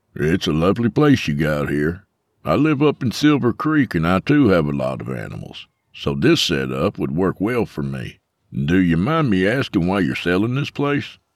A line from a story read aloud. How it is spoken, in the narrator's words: Mike chuckled self-deprecatingly as he tried to restrain his bitterness